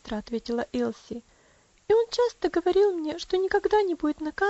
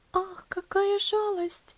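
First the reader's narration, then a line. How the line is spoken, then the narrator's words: Sighing. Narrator (Russian): вздохнула Элси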